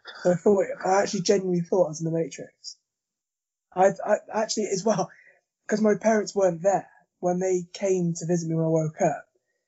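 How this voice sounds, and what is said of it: Damaged, strained voice. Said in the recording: “my voice is the way it is, because it ripped my vocal cords on the way out”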